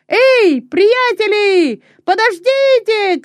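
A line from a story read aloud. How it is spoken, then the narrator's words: Shouting. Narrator (Russian): кричал он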